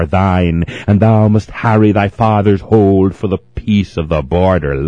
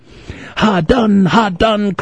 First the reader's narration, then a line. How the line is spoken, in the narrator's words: cried the colonel's son